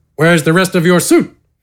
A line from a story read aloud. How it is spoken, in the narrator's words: Gafgarn grunted